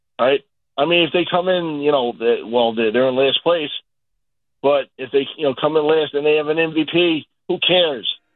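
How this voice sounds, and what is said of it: Trailing, worn-out voice. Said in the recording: “my voice is starting to trail. ... I hear it.”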